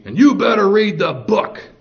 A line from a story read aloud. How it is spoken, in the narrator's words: she yelled to me